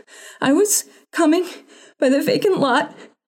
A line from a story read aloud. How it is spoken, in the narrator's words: she panted